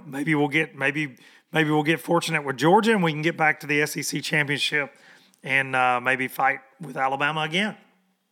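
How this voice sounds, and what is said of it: Hoarse voice. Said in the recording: “I am I'm hoarse”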